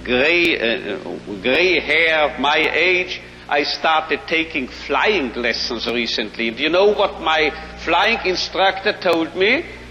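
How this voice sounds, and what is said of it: Strong foreign accent in English. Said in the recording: “I am speaking a marvelous accent without the slightest English”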